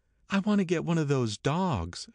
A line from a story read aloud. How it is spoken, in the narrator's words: she said earnestly